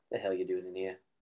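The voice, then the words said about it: Low, relaxed imitation of another person. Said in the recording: “Good imitation. ... it's very low. It's very like this. Not monotone. Just chill. ... Prince.”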